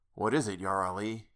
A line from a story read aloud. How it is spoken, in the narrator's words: he whispered